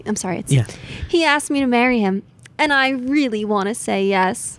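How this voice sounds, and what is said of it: Imitates another person's voice. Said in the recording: “A flawless Jamie Lee Curtis jumping up and down on the bed listening to her early 2000s clunky white phone.”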